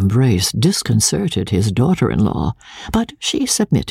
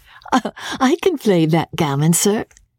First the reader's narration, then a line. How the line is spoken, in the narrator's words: said laughing